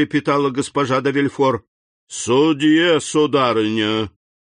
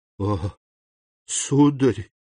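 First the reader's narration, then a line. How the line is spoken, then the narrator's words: Whispered. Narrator (Russian): прошептала она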